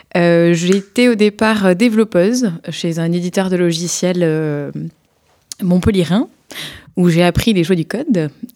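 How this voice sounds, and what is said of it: Slight southern French accent. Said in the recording (French): “d'où mon petit accent sudiste”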